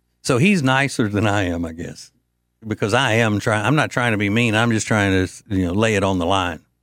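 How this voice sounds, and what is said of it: Usual voice. Nothing is said of it.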